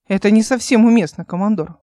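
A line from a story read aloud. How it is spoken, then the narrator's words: Stern. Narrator (Russian): произнес он строго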